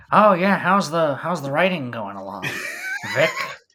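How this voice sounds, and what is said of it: Poor imitation of another person's voice. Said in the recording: “my terrible Paul Giamatti impression”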